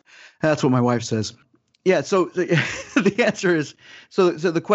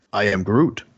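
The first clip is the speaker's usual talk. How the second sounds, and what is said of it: Vin Diesel impression as Groot. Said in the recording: “You do a very good Vin Diesel impression.”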